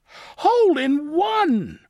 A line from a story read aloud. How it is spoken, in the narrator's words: cried Froggy